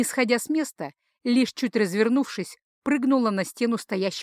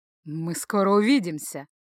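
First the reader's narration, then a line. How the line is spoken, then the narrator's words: Half laugh, half growl. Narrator (Russian): то ли хохотнула, то ли рыкнула она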